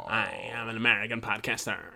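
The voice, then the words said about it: American podcaster voice with vocal fry. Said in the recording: “With their vocal fry. ... that TDS American way”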